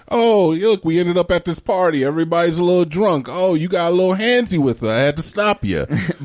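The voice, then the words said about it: Puts on an accent. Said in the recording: “I don't know why I gave him that accent”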